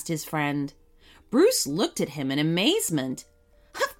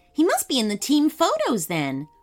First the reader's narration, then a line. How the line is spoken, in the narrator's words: replied Bruce excitedly